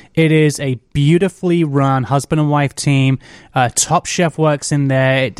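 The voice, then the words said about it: Southern US Alabama accent. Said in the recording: “by your accent, from Alabama ... I emigrated to Alabama when I was six ... Hence the accent.”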